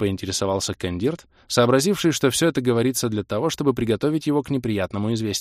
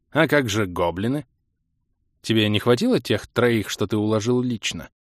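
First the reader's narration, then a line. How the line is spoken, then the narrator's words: Meek surprise. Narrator (Russian): Кротко удивился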